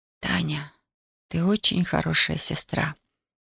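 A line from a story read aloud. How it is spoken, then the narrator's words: Whisper. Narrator (Russian): прошептала Даша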